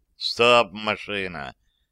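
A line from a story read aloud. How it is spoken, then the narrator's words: Displeased command. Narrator (Russian): недовольным голосом скомандовал лоцман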